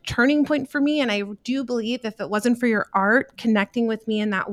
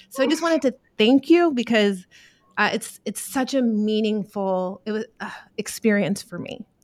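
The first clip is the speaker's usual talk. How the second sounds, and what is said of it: Emotional, choked-up voice. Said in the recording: “getting emotional”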